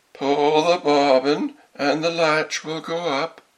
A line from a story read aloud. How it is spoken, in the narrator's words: The wolf cried out to her, softening his voice as much as he could